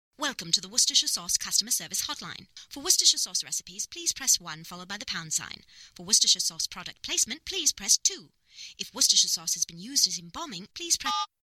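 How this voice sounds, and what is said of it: Proper British accent. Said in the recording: “There's something about the British accent. It's just funny ... the very proper”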